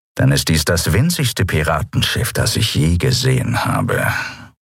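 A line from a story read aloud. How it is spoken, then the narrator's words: Grumbling. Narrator (German): brummte Chasu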